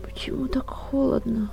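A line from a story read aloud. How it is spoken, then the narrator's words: Sleepy, wary girl's question. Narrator (Russian): Сонно, но с уже довольно чистым разумом спросила девушка, которую насторожила тьма вокруг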